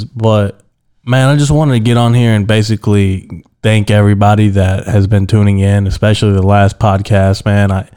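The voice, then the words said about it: Slightly weird, sick-sounding voice. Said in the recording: “Been a little bit under the weather. That's why my voice sounds a little weird”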